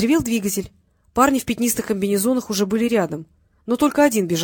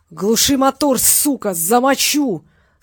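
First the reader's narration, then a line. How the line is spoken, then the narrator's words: Terrifying yell. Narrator (Russian): страшным голосом заорал Робик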